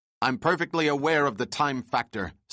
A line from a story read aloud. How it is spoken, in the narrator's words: snapped the captain